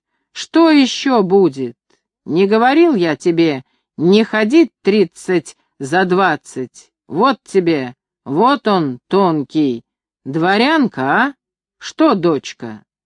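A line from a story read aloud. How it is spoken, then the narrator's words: Several shouting together. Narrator (Russian): Закричали все четверо, громче всех отчим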